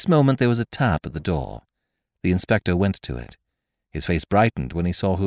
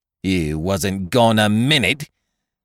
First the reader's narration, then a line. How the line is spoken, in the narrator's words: retorted the chambermaid angrily